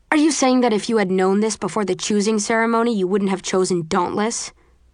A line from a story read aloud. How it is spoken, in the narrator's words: Eric snaps